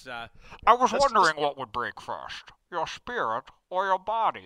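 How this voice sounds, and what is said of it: Muffled, cupped villain voice impression. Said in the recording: “You've got to cup. You got to cup your voice. ... It's a little Sean Connery, right, Bane?”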